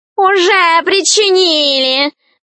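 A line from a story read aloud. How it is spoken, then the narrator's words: Loud guffaw. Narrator (Russian): захохотал кот в сапогах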